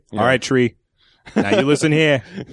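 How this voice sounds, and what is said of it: Imitates another person's voice, Boston accent. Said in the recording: “real Wahlberg... This is Boston accent.”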